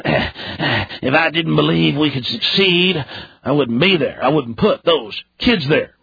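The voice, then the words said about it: Fake Texas accent imitating Bush. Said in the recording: “Let me get my Texas accent, my fake one.”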